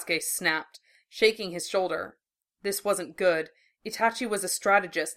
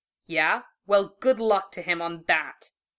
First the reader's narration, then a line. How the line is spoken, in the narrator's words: Naruto spat